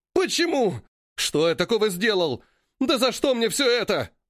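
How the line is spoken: Swindler yelling. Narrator (Russian): заорал аферист

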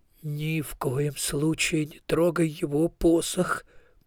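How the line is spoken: Muttered. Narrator (Russian): пробормотал

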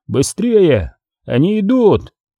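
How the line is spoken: Shouting. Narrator (Russian): Удермайс крикнул

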